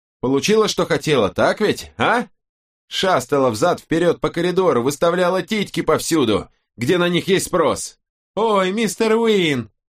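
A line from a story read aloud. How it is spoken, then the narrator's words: Silly shrill mimicry. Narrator (Russian): Он копировал ее так, как это делал Мэтью, дурашливым, визгливым голосом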